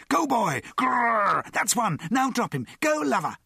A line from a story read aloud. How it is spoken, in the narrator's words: The crowd screamed